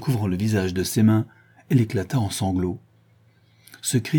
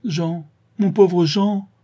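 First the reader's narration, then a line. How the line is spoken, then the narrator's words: Exclaiming. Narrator (French): s'écria Clairette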